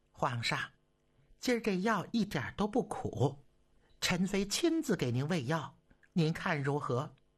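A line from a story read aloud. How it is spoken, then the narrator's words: Soft coaxing voice. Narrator (Chinese): 皇后……柔声细语地劝道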